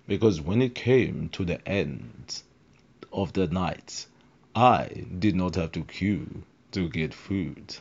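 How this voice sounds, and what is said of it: Imitates a TV character's voice. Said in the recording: “doing that stupid voice ... Doctor Strange is this doctor who just has this voice who talks like this”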